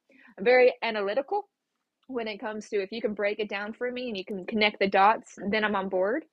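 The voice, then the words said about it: Atlanta Southern accent. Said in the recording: “I need a very Atlanta, I can't even speak out. My accent's coming out now.”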